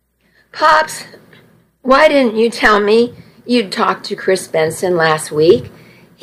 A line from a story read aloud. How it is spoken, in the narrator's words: He laughed